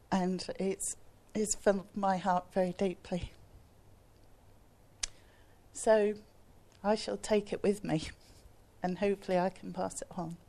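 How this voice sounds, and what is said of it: Emotional, moved voice. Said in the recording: “I'm all emotional”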